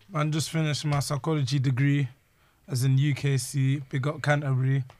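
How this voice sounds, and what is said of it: Hoarse, strained voice. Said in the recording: “I lost my voice. I sound weird.”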